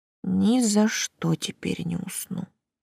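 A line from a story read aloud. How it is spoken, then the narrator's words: Mumbling. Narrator (Russian): пробормотала я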